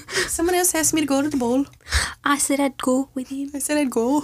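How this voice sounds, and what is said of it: Put-on Scottish accent. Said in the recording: “she was Scottish in the movie ... That's the cutest accent.”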